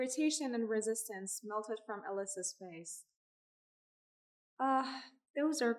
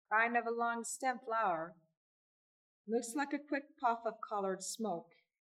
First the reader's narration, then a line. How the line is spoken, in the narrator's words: he asked